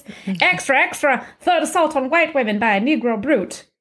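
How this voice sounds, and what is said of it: Old-timey newspaper crier voice. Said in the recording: “I'm going to do my best, like, old-timey newspaper voice. ... it's a terrible, like, radio voice.”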